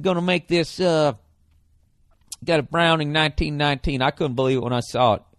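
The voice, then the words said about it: Put-on Southern US accent. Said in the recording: “they got a southern accent.”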